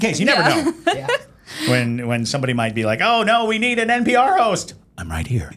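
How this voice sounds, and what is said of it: Usual voice. Nothing is said of it.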